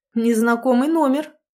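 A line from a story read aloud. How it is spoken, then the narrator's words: Wry hmph. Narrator (Russian): хмыкнул он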